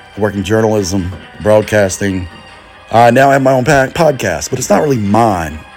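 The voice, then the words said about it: North Carolina accent. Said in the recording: “He doesn't sound like he's from here. Where is that accent? ... Originally, I'm a North Carolina boy.”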